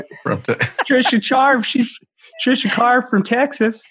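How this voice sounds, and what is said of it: Put-on Texan accent. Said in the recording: “How's my accent?”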